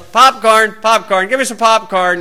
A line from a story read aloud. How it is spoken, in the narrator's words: he yells